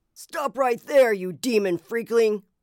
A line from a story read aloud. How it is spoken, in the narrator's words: bellowed